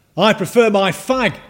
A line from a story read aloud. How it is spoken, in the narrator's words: shouted a heckler